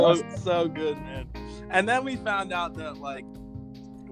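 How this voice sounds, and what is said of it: Usual voice. Nothing is said of it.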